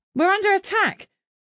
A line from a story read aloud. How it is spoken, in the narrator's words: shouted in panic